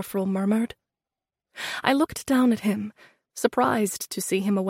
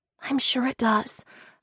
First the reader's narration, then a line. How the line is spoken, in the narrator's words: I whispered